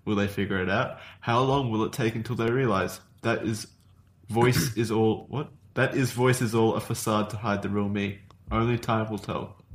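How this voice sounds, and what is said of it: Australian accent drifting toward British. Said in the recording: “your Australian accent sounded kind of British there”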